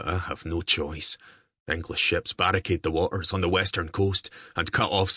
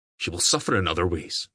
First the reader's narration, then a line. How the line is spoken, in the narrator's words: Diarmid said sharply